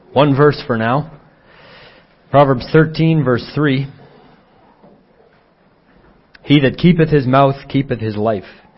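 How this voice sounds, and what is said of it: Sick, not fully recovered voice. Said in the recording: “I hope you can bear with my voice. I've been fighting off a cold and it's been it's getting better, but my my voice is not quite there yet.”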